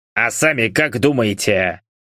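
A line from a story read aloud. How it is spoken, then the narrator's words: Grumbling mustached man. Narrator (Russian): проворчал усатый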